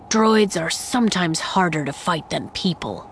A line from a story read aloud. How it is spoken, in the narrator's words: Saw continued, his voice contemplative